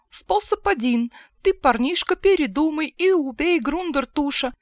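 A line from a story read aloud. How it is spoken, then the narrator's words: Cheerful. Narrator (Russian): весело сказал Хаккоп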